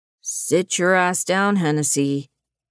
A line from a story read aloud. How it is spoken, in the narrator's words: Nolan growled